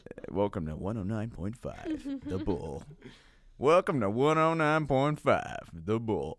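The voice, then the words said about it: Radio broadcaster voice. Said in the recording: “to do my broadcasting voice ... Not your normal voice.”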